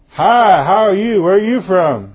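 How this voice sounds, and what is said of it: Very loud, obnoxious voice. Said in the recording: “this very loud, very obnoxious voice”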